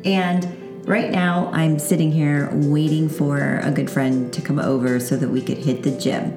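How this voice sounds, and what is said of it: Scratchy morning voice. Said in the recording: “my voice is a little scratchy because you are the first people who get to hear me in the morning”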